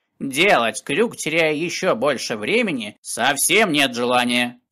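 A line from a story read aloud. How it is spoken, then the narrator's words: Stern. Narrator (Russian): строго добавил он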